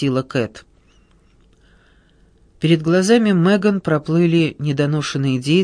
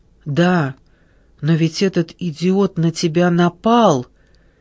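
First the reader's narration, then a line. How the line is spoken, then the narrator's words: Hesitant objection. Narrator (Russian): неуверенно возразила Джессика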